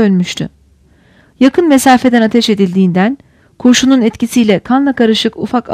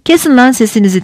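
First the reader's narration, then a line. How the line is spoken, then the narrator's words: Shouted. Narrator (Turkish): diye bağırdı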